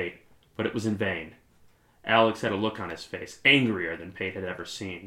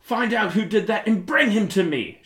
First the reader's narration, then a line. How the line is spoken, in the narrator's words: shouted the boy king at the top of his lungs